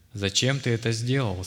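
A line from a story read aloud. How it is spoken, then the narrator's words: Plain question. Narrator (Russian): спросила княжна темника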